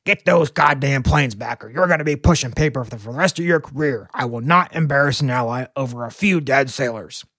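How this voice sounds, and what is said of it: Imitates another person's voice, slight twang. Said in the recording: “my best LBJ impression. I don't know if it's need a little more twang”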